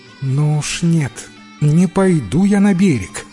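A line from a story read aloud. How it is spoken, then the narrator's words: Exclaiming. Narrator (Russian): воскликнула царевна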